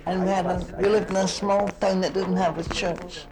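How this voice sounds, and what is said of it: Scottish accent. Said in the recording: “I come from Scotland, as you know, with my accent.”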